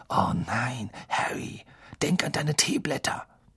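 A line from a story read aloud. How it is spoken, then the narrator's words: Whispered. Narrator (German): flüsterten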